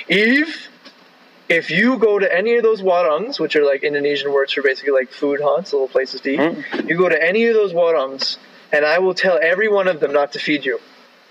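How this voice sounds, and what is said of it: Deliberately deep voice. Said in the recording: “put on my deep voice”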